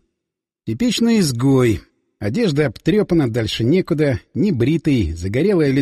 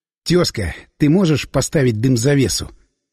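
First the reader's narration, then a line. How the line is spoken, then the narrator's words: Whispered question. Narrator (Russian): Поинтересовался я шепотом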